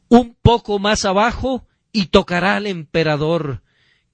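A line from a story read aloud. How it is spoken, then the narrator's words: Pained exclamation. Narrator (Spanish): cuando el cirujano cortó profundamente buscando la bala, el paciente exclamó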